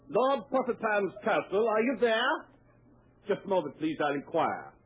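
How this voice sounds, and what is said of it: Put-on English accent. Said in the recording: “English drawing room drama ... Remember your accent, fellows.”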